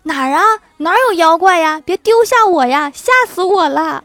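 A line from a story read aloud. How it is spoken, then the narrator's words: Panicked yelping while running. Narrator (Chinese): 狐狸也嗷一声，边跑边叫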